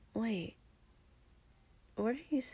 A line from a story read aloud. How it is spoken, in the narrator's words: Izuku said quietly